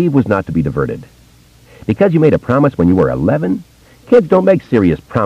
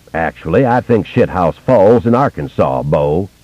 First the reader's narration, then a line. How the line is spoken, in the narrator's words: Buford Kissdribble said in his big hollow barrel voice